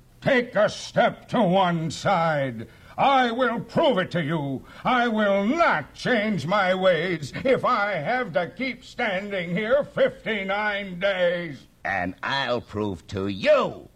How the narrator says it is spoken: yelled the south-going Zax

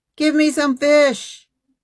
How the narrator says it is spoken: He shouted at them

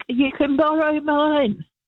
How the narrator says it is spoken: yelled back

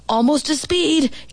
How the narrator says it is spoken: Gibby's dad hollered

